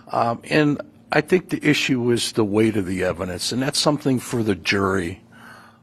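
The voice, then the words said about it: Northern Great Lakes American accent. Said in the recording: “You can hear from the accent that we're talking Northern Great Lakes dialect.”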